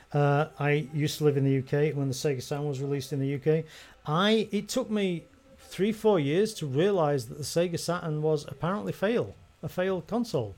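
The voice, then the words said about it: European accent. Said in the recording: “I'm a European ... people who don't can probably tell by my accent.”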